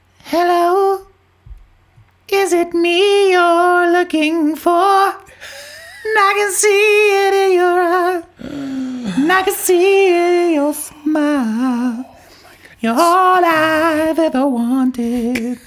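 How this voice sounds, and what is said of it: Singing in falsetto. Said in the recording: “you want me to do that falsetto?”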